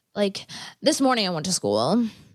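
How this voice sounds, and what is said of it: Imitates another person's voice. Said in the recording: “I'm gonna try to impromptu do an impression.”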